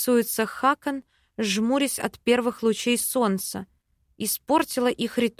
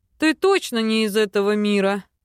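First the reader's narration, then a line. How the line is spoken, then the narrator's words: Snorting. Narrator (Russian): Фыркнув, Кай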